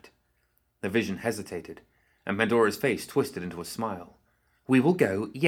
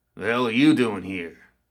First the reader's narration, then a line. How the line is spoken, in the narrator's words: growled